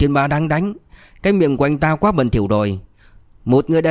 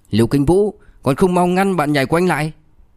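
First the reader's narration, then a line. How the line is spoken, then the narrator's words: Angry. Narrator (Vietnamese): Châu Văn Siêu tức giận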